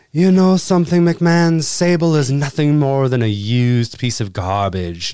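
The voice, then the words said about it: Impression of Triple H's Greenwich accent. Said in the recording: “Triple H ... His Greenwich blue blood accent is the fucking shits”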